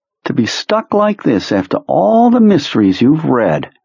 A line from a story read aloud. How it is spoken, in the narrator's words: his mind's version of Henry taunted him